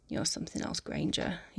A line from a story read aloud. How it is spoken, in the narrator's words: mumbles between kisses